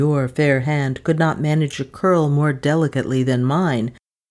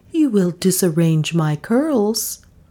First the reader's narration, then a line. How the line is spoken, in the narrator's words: Bullfrog tenderly